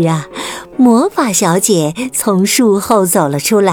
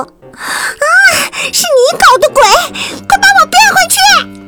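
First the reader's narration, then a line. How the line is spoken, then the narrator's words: Shrill, bossy young woman. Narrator (Chinese): 霸道小姐尖声说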